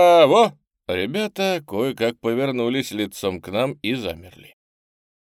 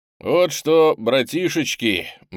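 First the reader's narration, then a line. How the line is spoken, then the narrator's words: Cheerful, brisk. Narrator (Russian): бодро начал боцман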